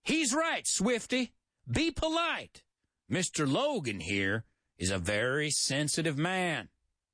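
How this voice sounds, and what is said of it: Nasal southern twang. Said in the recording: “I did it in my country, in my southern twang ... It's a nasal kind of tone like that. It's called a twang.”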